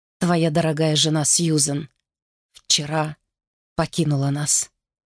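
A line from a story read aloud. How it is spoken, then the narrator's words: Soft, gentle. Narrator (Russian): мягко сказал Герберт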